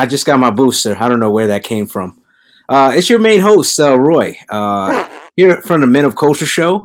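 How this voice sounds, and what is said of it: Usual voice. Nothing is said of it.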